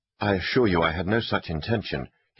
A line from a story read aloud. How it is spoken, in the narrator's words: Kingsley pressed on quickly